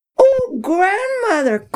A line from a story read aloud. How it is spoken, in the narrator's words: Cotisson cried